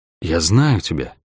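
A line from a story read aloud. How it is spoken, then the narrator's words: Whisper. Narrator (Russian): прошептал акробат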